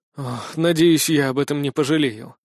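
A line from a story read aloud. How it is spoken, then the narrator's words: Sighed. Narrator (Russian): вздохнул я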